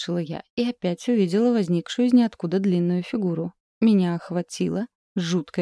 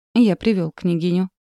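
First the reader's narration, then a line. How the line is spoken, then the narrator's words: Icy tone. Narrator (Russian): ледяным тоном сказал ворон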